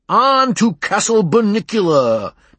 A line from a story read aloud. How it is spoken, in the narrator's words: Peter shouted